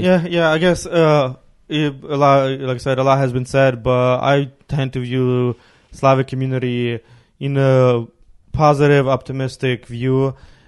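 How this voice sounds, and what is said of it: Ukrainian accent. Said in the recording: “I was born in Ukraine. ... my accent”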